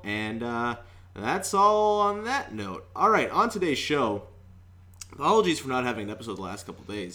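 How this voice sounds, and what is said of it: Hoarse, worn-out sick voice. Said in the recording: “As you can probably tell, my voice is kind of shot ... also sick”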